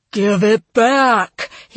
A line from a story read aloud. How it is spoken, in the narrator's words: he roared